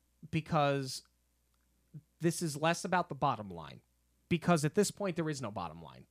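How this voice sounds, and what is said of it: Emotional voice, breaking slightly. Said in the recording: “my voice is kind of breaking a little bit ... it's emotional”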